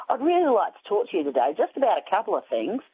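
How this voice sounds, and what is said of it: Imitated Australian accent. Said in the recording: “he had this Australian accent.”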